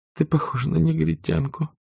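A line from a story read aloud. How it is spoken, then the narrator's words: Tired mumble. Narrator (Russian): пробормотала Скарлетт, устало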